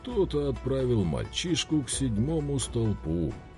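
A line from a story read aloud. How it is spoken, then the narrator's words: Somber funereal voice. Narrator (Russian): похоронным голосом произнес Бихан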